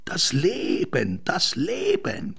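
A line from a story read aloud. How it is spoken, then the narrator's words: Calling, almost singing. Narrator (German): er ruft es nicht nur, er singt es beinahe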